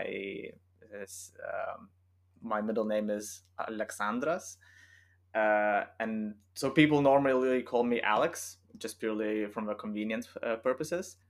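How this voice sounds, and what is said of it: Lithuanian accent, non-native English speaker. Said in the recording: “as you might hear from my accent, I'm not British or English, or it's not my native language. I'm from Lithuania”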